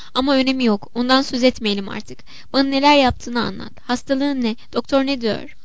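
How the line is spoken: Mocking laughter. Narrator (Turkish): Anna kuşkusuz kocasının başka bir gülünç durumunu anımsayarak ve onunla alay etmeye fırsat arayarak alaylı alaylı gülerek

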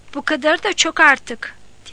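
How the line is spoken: Shouting. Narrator (Turkish): diye bağırdı

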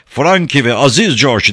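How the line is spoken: Group shouting. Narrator (Turkish): diye bağırdılar

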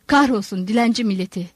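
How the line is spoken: Grumbled. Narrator (Turkish): diye homurdandı

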